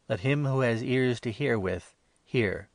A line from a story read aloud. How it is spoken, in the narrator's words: Jesus cried aloud